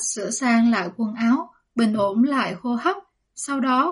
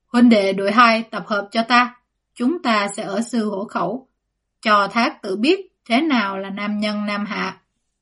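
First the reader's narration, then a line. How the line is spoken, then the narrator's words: Loud rallying call. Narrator (Vietnamese): Dương Mặc cao giọng gọi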